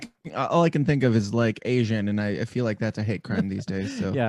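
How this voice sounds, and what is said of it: Usual voice. Nothing is said of it.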